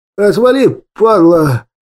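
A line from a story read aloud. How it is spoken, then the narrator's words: Hoarse wheeze. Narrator (Russian): прохрипел тот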